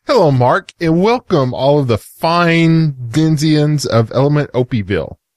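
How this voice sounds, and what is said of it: East Texas accent. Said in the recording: “Bad East Texas. Yeah. Accent”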